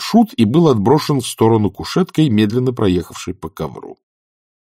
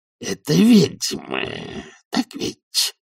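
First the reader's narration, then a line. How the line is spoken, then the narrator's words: Growled. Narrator (Russian): прорычал он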